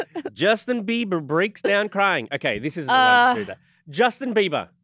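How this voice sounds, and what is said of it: Strong Australian accent. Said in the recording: “I feel like you're turning up your Australian accent right now.”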